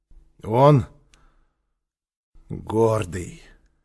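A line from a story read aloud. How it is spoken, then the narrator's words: Hoarse repetition. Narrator (Russian): хрипло повторил Квакин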